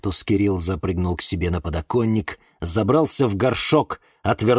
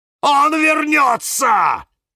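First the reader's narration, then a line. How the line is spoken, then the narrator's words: Very loud cactus shout. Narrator (Russian): закричал кактус Кирилл так громко, что все вздрогнули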